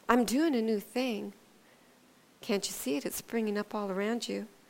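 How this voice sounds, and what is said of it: Whispering. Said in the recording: “whispering”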